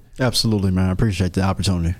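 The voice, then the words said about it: Deliberately deep, low voice. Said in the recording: “See, my voice got a little bit deeper... Man, is Barry White in the studio?”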